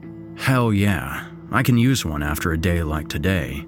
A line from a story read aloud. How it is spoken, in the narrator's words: said Eric